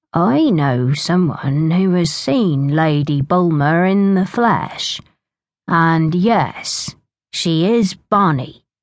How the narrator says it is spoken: he said slowly

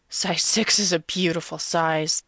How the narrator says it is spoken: Foot Fetish Guy groans

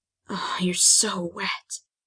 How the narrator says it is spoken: I whispered

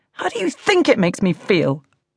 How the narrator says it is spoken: I snapped

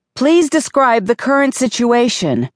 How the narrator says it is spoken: yelled, patience and composure running out

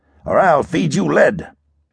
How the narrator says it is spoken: growled

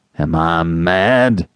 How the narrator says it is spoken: thundered Mr

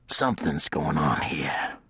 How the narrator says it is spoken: Sheenan hissed

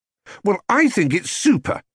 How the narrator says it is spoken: exclaimed Jonathan excitedly

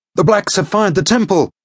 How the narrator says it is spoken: he cried

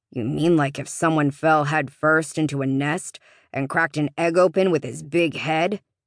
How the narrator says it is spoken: Todd grumbled

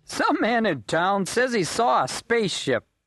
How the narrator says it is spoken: he chuckled

